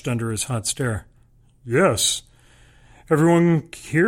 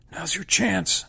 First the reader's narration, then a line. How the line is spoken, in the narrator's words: Indrani whispers, looking stricken